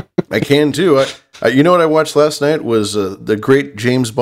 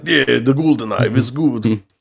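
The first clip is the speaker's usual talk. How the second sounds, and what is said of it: Fake Russian accent. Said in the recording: “everybody in that movie has a fake Russian accent ... Talk like this, Soviet Russia”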